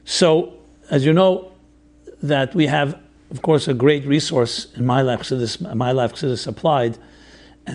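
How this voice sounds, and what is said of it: Hoarse voice. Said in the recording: “I apologize for my hoarseness.”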